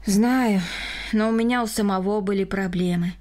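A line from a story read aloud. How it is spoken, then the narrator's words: Sighing. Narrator (Russian): вздохнул Рома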